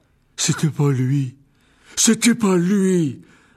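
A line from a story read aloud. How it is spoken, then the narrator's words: Young man roaring. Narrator (French): rugit le jeune homme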